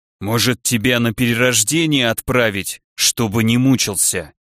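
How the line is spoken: Kind growling voice. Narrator (Russian): Рычащий голос был самой добротой

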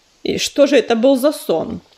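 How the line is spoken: Icy question. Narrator (Russian): ледяным тоном спросила пятнистая звезда

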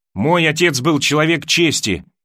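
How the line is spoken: Angry blurting. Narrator (Russian): сердито выпалила она

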